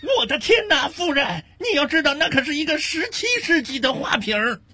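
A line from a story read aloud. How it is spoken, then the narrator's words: Alarmed shriek. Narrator (Chinese): 导游惊声尖叫道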